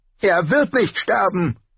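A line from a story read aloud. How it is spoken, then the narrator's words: Shouting at someone. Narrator (German): schrie Bran ihn an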